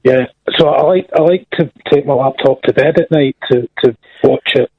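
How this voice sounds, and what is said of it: Scottish accent. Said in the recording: “I'm Scottish, yes. Did you not understand the accent?”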